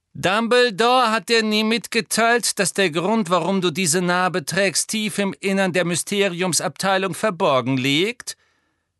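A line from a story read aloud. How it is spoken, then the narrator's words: Sneered. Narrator (German): höhnte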